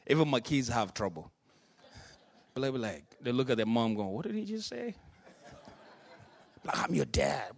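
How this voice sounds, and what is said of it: Thick foreign accent. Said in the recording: “Whenever I'm tired, as you know, my accent is extra thick. Okay? Like it really is.”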